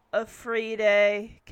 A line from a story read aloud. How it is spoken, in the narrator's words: Kevin says sarcastically, not buying it